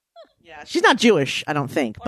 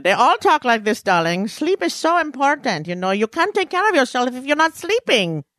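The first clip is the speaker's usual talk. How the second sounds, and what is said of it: Put-on old Jewish aunt accent. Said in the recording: “It's called General Jew. That's my accent, right? Just General Jew. ... just all of my aunts ... just everyone that's old in my family ... You went a little Indian Pakistani there.”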